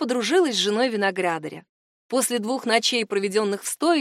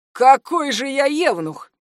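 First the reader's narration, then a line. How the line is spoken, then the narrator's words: Boastful snort. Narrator (Russian): фыркнул хвастливо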